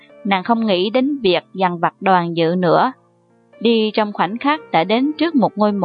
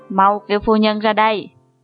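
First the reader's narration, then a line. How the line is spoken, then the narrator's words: Cold reply. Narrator (Vietnamese): Mộc Uyển Thanh lạnh lùng đáp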